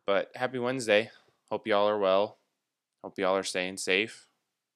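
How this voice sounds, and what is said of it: Tired-sounding voice. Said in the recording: “recording super early in the morning, so if I sound tired, it's because I am”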